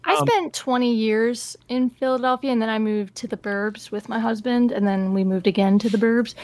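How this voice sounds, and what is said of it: Philadelphia accent. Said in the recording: “Philadelphia ... her dumb fucking accent”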